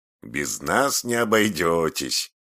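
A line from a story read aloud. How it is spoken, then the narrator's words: Laughing loudly. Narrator (Russian): захохотал Павлик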